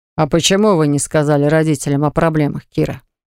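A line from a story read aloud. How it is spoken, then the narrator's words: Plain. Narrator (Russian): спросил он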